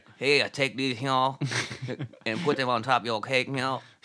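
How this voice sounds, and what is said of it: Put-on Cajun accent. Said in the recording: “Cajun accent, Cajun”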